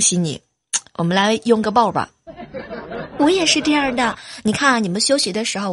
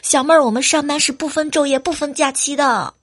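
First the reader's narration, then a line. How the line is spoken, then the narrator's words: Complaining. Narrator (Chinese): 有一个朋友叫青春啊，经常跟我们吐槽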